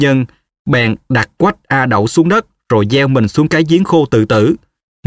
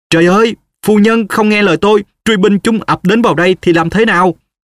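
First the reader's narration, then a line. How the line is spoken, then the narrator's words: Panicked loud cry. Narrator (Vietnamese): Vân hoảng hốt kêu lớn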